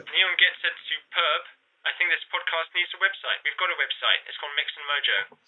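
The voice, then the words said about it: British accent. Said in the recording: “I love that British accent ... I am a little bit British.”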